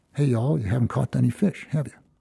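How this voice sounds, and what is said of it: Knowing, smiling character voice. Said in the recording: “in that knowing voice... you can hear maybe a smile in his voice”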